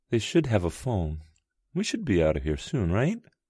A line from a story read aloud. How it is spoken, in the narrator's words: Her voice wavered, revealing her nerves